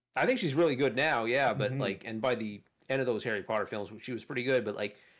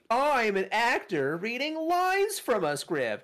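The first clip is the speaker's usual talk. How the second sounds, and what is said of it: Stiff announcing child-actor line reading. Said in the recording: “she's the absolute worst kid actor in the first one ... It's like all that kind of cadence ... literally just, like, announcing”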